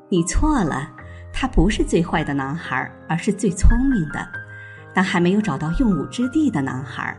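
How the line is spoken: Smiling. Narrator (Chinese): 继母微笑着说

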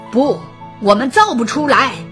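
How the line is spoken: Beast roaring. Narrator (Chinese): 野兽大吼一声

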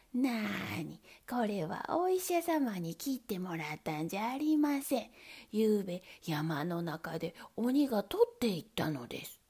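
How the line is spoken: Plain. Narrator (Japanese): と言いました

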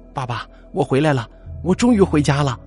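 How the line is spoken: Girl calling out. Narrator (Chinese): 女孩一到家门口就叫

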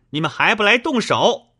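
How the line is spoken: Wild shouting. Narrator (Chinese): 明烟……乱嚷

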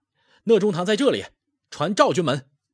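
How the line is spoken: Soldiers shouting in unison. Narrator (Chinese): 手下兵士便齐声呐喊

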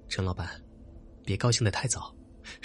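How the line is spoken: Cold. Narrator (Chinese): 小畅冷冷的说

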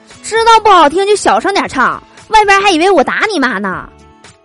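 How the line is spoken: Roaring. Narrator (Chinese): 我爸吼道

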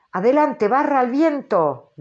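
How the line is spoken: Sudden thunderous shout. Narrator (Spanish): gritó Ahab a sus hombres como un relámpago

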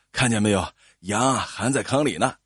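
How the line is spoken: Panting heavily. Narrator (Chinese): 赵二喘着粗气

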